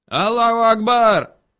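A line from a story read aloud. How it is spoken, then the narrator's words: Yelled from a truck. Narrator (Russian): заорали на нас с кузова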